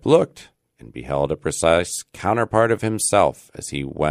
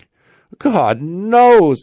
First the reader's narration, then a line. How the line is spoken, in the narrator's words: exclaimed he at his wit's end